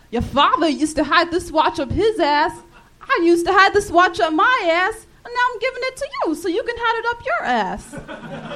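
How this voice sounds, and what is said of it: Imitates another person's voice. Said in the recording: “my Christopher Walken impression from Pulp Fiction”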